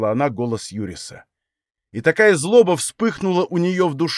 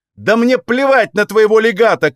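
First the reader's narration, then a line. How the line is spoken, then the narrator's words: Shouting. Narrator (Russian): крикнула она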